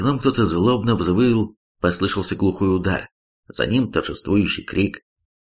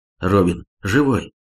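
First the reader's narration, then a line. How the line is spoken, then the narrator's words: Joyful exclamation. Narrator (Russian): радостно воскликнул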